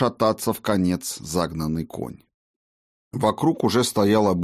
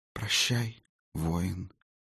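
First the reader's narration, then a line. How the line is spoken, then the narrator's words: Sudden mouthed whisper. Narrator (Russian): вдруг шепотом, одними губами произнесла ведьма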